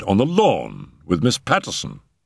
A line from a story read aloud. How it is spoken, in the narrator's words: I cried